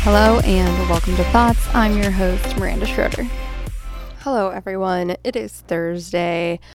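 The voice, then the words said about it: Sick voice with a cold. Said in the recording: “I've been super sick all week ... I sound terrible. I know I sound terrible. ... I'm recording it with a cold”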